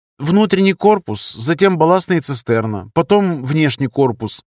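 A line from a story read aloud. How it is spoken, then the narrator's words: Plain. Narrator (Russian): сказал он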